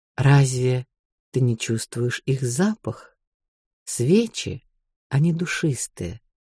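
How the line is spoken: Quiet answer. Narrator (Russian): отвечает по-прежнему тихим голосом

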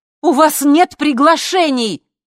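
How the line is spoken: Shout. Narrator (Russian): закричала Лина

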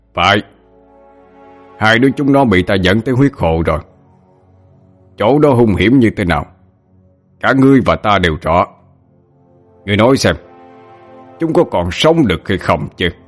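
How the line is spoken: Loud laughter. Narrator (Vietnamese): Hắn quay sang huyết hoàng mà cười lớn

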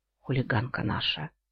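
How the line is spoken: Breaking whisper. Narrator (Russian): срывающимся шепотом выдал Иен

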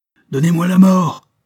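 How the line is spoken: Exclaimed. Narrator (French): s'écria le prince

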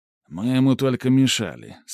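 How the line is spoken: Calm old soldier. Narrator (Russian): спокойно произнес старый служака

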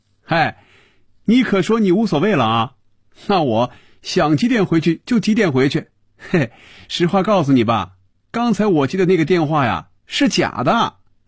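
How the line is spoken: Laughing. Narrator (Chinese): 菲比笑出了声 说

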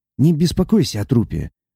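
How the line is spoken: Quiet. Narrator (Russian): тихо произнес он

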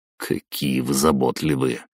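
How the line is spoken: Grumbling. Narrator (Russian): проворчал я

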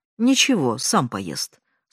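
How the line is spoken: Calm. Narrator (Russian): спокойно сказала я

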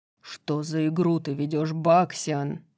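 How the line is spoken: Growled. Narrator (Russian): прорычал Хант

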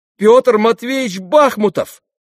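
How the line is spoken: Trembling cry. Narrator (Russian): вскрикнул мой медик, чуть не задрожав

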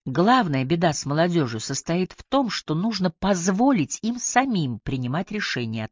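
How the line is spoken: Plain. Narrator (Russian): ответил Яго

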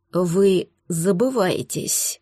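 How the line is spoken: Cold words through teeth. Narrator (Russian): процедил побледневший эльф

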